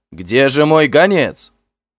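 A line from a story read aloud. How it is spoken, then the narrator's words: Shout. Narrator (Russian): Гол закричал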